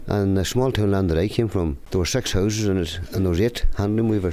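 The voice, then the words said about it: Authentic regional accent. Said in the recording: “his accent is as authentic as the tweed”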